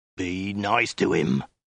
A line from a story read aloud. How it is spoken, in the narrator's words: the Mongol snarled